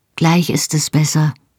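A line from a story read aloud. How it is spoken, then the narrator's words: Calm, steady voice. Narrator (German): sagte ich, und meine Stimme war ganz ruhig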